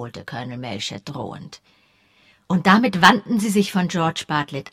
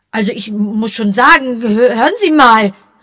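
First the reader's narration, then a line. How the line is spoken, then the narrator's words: Startled exclamation. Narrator (German): rief George aufgescheucht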